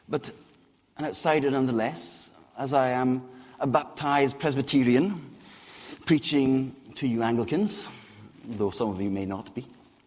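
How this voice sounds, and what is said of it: Scottish accent. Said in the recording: “a Scotsman in deepest, darkest England ... despite my accent, I was not born in Scotland”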